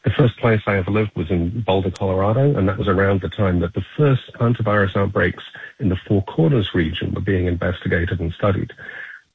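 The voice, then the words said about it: Non-American foreign accent. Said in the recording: “you can tell from my voice, by the way, that I'm not originally from the United States”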